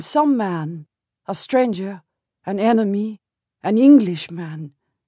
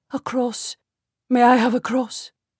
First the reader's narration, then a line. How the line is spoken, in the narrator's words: whisper